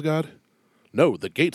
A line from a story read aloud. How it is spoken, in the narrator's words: says Peter